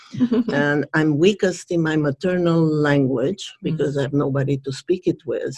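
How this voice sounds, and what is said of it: Non-native English accent. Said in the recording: “my native language is Hungarian ... I unfortunately speak them all with an accent.”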